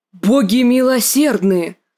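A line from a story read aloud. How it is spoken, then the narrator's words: Shocked exclamation. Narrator (Russian): воскликнул сэр Бриндон, когда они увидели развалины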